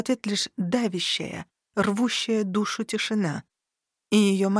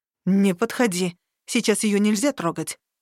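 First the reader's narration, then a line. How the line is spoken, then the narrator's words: Snarled. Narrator (Russian): рыкнула она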